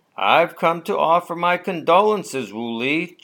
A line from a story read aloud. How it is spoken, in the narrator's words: Chu Lo said